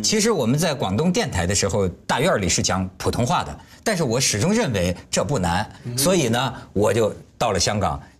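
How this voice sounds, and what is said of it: Mandarin with heavy Dongguan accent. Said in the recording (Chinese): “你的國語東莞口音很重啊”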